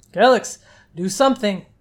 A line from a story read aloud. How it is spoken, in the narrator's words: Nastazo shouted as he was dragged down